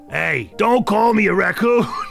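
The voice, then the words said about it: Put-on New Jersey accent. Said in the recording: “He's got a bit of a Jersey accent. It's just turning into Jersey.”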